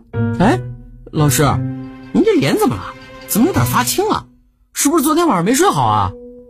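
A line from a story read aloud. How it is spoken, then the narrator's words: Unrestrained laughter. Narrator (Chinese): 赵无极已经是毫无形象的大笑起来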